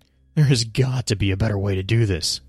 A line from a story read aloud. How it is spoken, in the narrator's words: he gasps